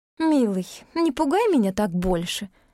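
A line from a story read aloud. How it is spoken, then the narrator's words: Purring tender voice. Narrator (Russian): мурлыкнула Мартиша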